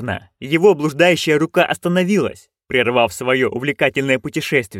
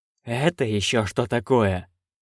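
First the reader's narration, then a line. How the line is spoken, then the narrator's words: Breathed out. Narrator (Russian): выдохнул он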